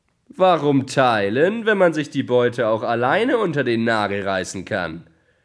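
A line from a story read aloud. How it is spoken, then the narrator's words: Mocking thief exclaiming. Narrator (German): rief der Dieb höhnisch aus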